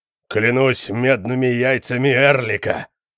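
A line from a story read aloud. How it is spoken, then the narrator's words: Thundering. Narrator (Russian): прогремел Конан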